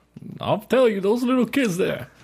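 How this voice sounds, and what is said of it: Hoarse old Southern man voice. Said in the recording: “old man impression ... I was thinking of old Southern man, but it didn't go out ... It sounded like Foghorn Leghorn with like a bad case of laryngitis.”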